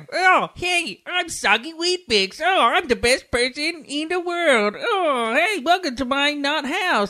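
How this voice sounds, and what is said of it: Comic character voice. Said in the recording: “how does the voice go? ... I'm Adam Sandler's version of Derek by Ricky Gervais”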